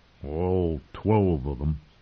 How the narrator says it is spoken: Lem Lemoncloak muttered

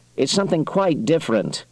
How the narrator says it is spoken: Lowe said sharply

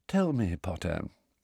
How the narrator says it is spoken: said Snape softly

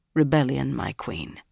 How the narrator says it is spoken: he said in a flat tone

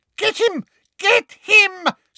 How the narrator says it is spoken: screamed Umbridge

